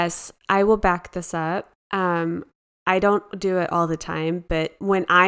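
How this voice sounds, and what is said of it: Usual voice. Nothing is said of it.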